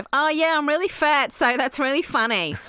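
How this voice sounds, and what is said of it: Impression of Rebel Wilson. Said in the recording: “That's a good impression.”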